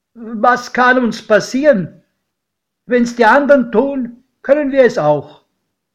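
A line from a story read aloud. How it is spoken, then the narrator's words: Calling out. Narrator (German): rief mein Pate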